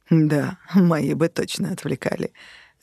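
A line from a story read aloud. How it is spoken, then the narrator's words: Laughing. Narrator (Russian): рассмеялся Конрад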